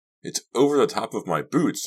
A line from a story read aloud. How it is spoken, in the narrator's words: I cried